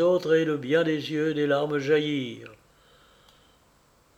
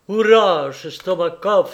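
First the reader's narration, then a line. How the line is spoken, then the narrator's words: Exclaimed. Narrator (French): s'écria Kolia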